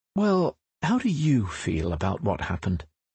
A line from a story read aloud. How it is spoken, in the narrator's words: the therapist is most likely to ask in a caring voice